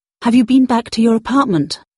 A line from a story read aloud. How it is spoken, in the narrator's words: asked urgently